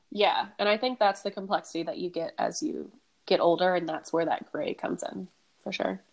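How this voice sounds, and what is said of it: Sick, raspy, nasal voice. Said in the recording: “I'm sick, so sorry, everyone, if I sound sick ... this is like the episode of the raspy voices ... Yeah, and the nasally.”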